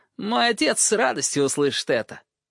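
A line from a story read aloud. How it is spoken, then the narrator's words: Loud laughter. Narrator (Russian): Грейджой расхохотался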